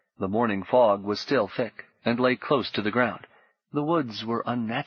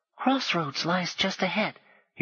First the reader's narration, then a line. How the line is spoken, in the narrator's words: he whispered